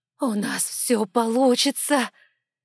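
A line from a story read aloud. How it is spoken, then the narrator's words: Fervent hiss. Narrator (Russian): жарко зашипела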